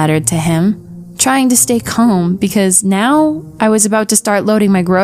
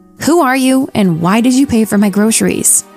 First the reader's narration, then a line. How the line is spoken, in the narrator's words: in a very snappy tone